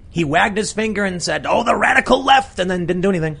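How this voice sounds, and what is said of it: A good impression. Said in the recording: “That's a really good impression.”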